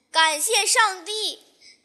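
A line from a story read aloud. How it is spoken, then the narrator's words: Ecstatic shout. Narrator (Chinese): 惊喜若狂地喊着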